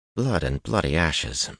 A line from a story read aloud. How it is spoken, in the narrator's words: Matt breathed